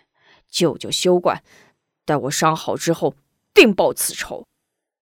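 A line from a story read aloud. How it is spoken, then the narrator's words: Angry. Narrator (Chinese): 门霸怒冲冲道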